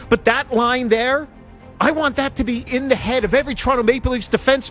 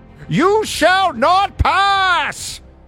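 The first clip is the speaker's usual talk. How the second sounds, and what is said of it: Gandalf character voice impression. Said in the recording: “That's a horrible Gandalf impersonation from Lord of the Rings.”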